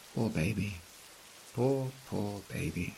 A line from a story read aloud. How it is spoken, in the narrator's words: whispers